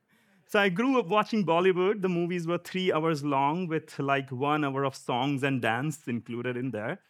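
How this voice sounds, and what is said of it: Indian accent. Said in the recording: “I'm an Indian. My accent is Indian.”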